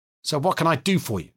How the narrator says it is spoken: snapped Mostovskoy

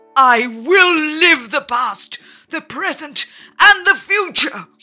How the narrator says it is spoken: he cried

